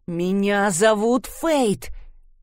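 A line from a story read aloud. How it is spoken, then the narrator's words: Through gritted teeth. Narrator (Russian): процедила она сквозь зубы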